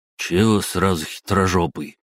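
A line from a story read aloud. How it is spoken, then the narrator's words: Lazy reply. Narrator (Russian): лениво откликнулся пельмень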